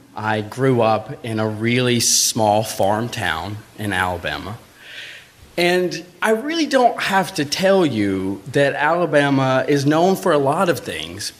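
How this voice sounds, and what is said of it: Southern US Alabama accent. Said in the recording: “if you hear an accent, it's because I'm from Alabama”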